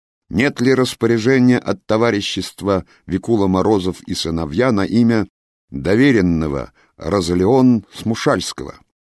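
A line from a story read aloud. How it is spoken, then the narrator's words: Overly loud question. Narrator (Russian): спросил у служащего чрезмерно громко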